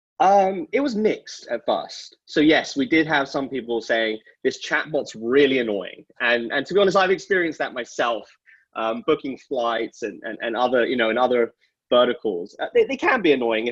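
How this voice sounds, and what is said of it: Speaker's own accent. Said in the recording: “my accent”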